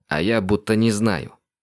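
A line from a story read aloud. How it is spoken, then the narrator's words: Angry snap. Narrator (Russian): зло огрызнулся Андрей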